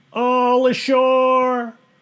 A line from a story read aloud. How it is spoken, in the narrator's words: the men shouted